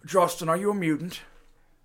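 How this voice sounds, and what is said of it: Superhero movie villain voice. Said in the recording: “A villain from a superhero movie.”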